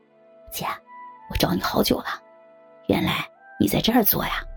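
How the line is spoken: Quiet, soft. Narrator (Chinese): 他小声的说

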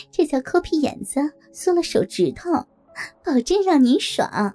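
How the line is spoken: Lewd laughing. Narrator (Chinese): 回头浪笑着对白老板说

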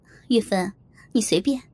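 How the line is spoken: Laughing. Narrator (Chinese): 萍姐笑着对我说

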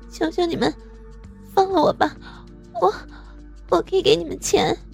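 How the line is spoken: Quiet pleading. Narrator (Chinese): 文文小声恳求着

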